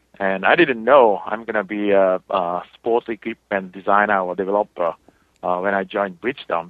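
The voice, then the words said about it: Japanese accent. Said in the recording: “as you know, my accent, I'm from Japan”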